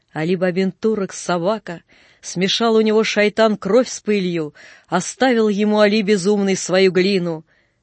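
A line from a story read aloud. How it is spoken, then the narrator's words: Crowd shouting. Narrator (Russian): кричали на базаре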